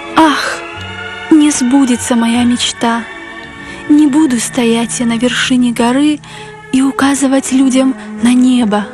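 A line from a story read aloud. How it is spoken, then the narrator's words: Heavy sorrowful sigh. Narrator (Russian): тяжело вздохнуло третье дерево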